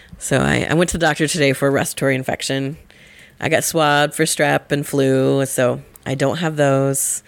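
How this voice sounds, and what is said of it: Gravelly, lower voice from illness. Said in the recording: “my voice is a little gravelly, a little bit lower than usual ... my really deep voice”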